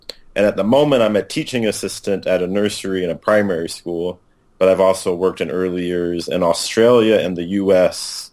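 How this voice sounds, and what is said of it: American accent. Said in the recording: “as you can tell from my voice, I'm an American”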